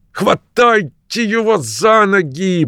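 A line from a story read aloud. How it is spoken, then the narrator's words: Hissed through clenched teeth. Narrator (Russian): прошипел сквозь зубы Джефферс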